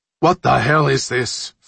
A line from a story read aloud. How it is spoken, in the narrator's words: Fowler shouted